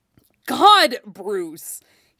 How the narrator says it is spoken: he snapped, in pure frustration

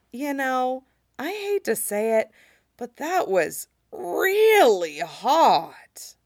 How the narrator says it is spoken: said, voice rough and rasping

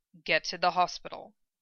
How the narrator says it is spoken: he ordered quietly

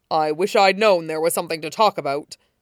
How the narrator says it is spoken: All Might said, voice thick

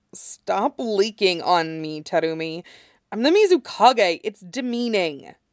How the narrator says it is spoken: his voice is slightly rough when he says

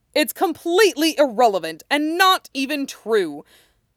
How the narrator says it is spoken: the other voice shouts

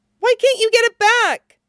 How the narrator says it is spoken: Chopper squeaks

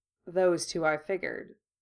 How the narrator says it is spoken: Kurama replied evenly

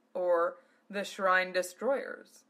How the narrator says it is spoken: Zelos chuckled

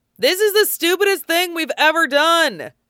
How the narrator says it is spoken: Varric yelled over the unearthly howl

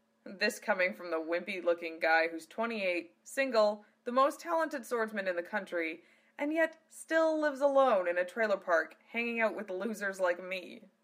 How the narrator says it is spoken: laughed his friend Zano

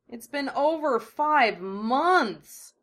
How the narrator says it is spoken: Naruto groaned

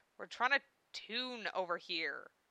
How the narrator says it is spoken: growled Val

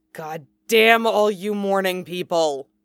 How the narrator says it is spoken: hisses, sounding as though the state is personally offensive

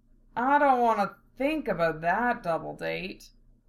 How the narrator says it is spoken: Val groaned

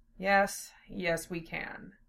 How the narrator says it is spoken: Zell replied in a low voice

